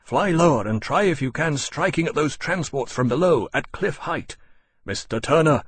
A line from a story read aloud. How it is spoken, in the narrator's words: he called urgently